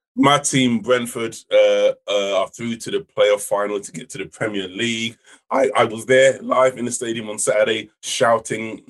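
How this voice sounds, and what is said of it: Slightly croaky voice. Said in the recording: “My voice is a bit croaky”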